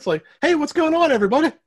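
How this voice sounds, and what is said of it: Silly comic character voice. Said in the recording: “That's my penis impression”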